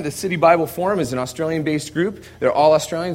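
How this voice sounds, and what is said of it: American accent. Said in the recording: “I'm the only one that's actually in the office with an American accent.”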